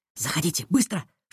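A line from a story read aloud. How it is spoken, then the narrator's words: Female whisper. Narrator (Russian): шепнула она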